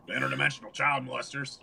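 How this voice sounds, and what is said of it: Deep growling imitation of another person. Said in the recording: “You do a really good imitation of him. ... Got that whole deep throat thing going that he does, you know? ... That growl thing.”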